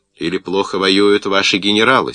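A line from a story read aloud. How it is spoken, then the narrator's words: Stern reply. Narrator (Russian): строго отозвался немец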